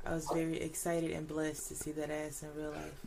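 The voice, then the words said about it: Sultry, sexy voice. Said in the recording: “That sounded real grown the way she said it in her sexy voice.”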